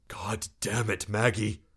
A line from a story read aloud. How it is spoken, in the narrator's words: Ben muttered